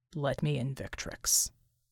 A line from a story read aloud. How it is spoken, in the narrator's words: Bull said quietly